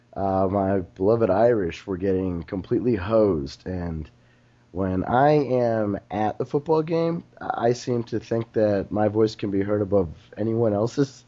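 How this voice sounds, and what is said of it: Slightly hoarse voice. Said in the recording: “I'm a little hoarse this week ... I almost booed myself out of a voice”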